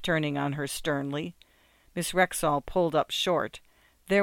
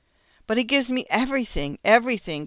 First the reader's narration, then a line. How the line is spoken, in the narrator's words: cried Miss Rexall